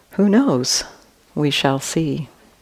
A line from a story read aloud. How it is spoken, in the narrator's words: Again, the farmer softly said